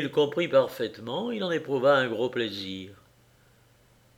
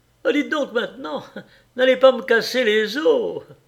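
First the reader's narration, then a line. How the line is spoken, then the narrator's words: Cheerful protest. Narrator (French): Il se récria d'une voix gaie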